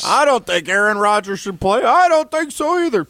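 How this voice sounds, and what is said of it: Grouchy old man voice. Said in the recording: “Two old guys that are grouchy ... That's actually a pretty good imitation there”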